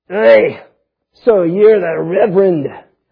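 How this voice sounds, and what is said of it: Rough attempted Scottish accent. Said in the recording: “I can't do Scottish accent, but it sounds kind of rough like that”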